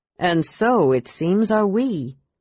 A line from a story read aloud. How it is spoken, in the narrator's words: said Brian grimly